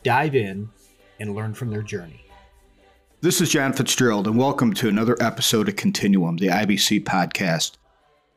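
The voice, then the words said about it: Silky smooth radio voice. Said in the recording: “you have a silky smooth radio voice”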